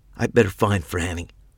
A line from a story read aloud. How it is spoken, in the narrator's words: said hoarsely